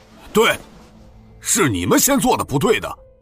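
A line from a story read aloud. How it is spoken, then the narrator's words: Loud voice. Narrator (Chinese): 杨忠也大声说道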